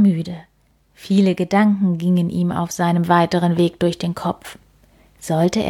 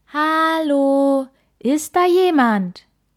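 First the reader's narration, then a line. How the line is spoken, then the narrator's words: Called out. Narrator (German): Kai rief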